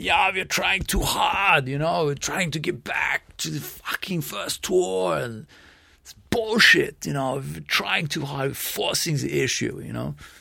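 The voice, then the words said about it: Imitates another person's voice. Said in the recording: “terrible JoJo impression”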